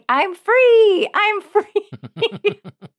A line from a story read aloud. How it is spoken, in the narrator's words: And he even was yelling